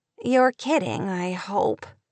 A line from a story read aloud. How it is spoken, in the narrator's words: Kate groaned